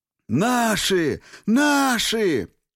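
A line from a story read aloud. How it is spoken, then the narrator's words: Yelling. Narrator (Russian): заорал Севка Воротников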